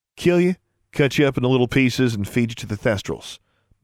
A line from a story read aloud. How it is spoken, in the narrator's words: Maximilian replied